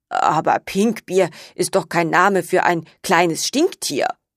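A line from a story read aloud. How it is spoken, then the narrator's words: Murmured. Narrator (German): murmelte sie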